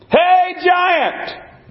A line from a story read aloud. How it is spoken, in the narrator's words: David yelled